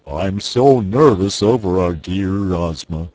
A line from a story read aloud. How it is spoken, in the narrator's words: said the Cowardly Lion in his deep, rumbling voice